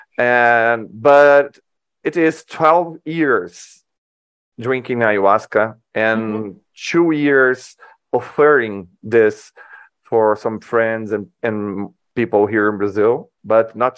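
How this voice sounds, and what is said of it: Non-native English accent. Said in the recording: “Can you understand my accent?”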